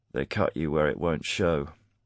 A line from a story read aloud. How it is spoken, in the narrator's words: Garrick said, his voice low and grim